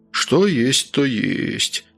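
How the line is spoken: Sighing. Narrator (Russian): вздохнул отец Георгий

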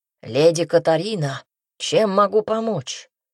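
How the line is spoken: Frightening hoarse voice. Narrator (Russian): Поинтересовался этот кошмарик страшным хриплым голосом

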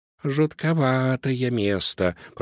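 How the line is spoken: Whispered. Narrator (Russian): прошептал Помпончик

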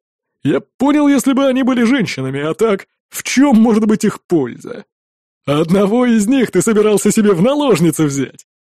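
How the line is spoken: Laughing. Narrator (Russian): рассмеялся Олаф

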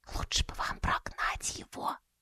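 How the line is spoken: Whispered. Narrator (Russian): прошептала Луиз

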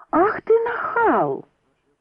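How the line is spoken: Indignant yell. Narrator (Russian): завопила Кейт

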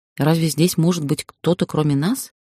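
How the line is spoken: Displeased irritated bass. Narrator (Russian): недовольный бас раздраженно продолжил

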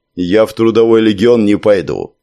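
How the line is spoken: Gloomy. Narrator (Russian): мрачно добавил Амфибос

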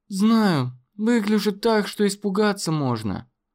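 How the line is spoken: Sighing woman. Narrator (Russian): вздохнула она

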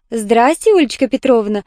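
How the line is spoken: Joyful reply. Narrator (Russian): радостно откликнулась Валентина

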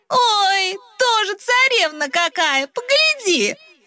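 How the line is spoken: Young woman shouting back. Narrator (Russian): кричала в ответ Христина, дочка кузнеца и хозяйка посиделок

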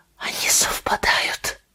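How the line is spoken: Whisper. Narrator (Russian): прошептала Кейти

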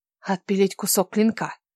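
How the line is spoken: Whispered. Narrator (Russian): прошептала Кира

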